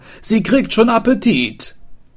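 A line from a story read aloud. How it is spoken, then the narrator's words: Tailor calling out. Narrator (German): rief der Schneider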